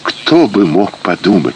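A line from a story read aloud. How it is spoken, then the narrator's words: Ecstatic whisper. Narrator (Russian): шептала она в небывалом экстазе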